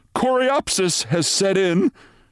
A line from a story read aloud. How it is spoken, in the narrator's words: said Renshaw nervously